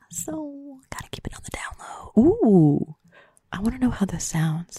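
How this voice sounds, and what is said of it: Soft, hushed ASMR-style voice. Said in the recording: “I may be speaking in an ASMR voice right now ... because I do not want to disturb my roommate”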